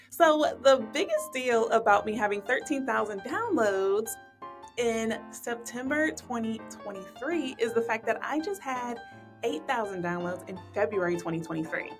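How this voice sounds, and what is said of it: Excited, elated voice. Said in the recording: “if you cannot hear it in my voice, I am over the moon. I am absolutely excited.”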